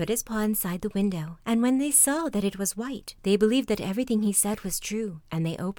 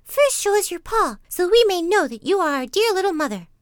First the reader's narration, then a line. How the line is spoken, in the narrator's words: The little kids cried out